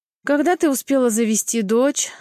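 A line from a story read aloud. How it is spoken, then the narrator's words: Tired question. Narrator (Russian): спрашивает устало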